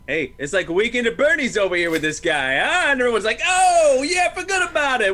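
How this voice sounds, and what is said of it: Put-on New York accent. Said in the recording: “that's a spot on New York accent.”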